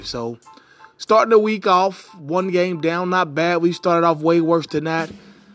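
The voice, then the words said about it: Voice sounds unwell, impaired. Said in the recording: “pardon my voice. I wish I knew uh, some instant remedy to, to get over it”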